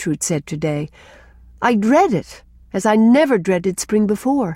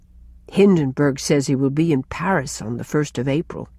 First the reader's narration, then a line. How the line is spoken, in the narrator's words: sighed Cousin Sophia